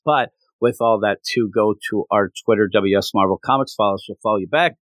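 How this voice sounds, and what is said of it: Hoarse, strained voice. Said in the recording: “I yelled at Jason a lot. ... I still can't talk. I lost my voice,”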